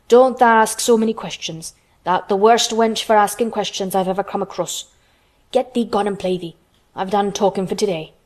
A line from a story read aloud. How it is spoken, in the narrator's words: he said sharply